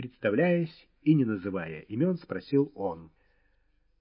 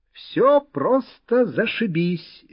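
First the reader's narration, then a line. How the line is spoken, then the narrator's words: Cheerful bald man. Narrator (Russian): весело отозвался лысый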